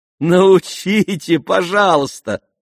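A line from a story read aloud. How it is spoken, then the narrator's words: Laughing. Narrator (Russian): смеялась Аделаида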